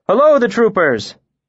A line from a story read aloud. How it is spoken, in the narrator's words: I called out